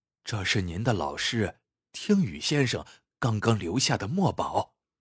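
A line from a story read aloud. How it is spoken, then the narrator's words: Quiet telling. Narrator (Chinese): 张家总管小声告诉张之洞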